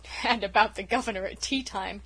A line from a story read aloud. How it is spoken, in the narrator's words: chuckled unrepentant Dan